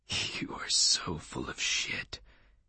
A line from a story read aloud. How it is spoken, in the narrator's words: he whispered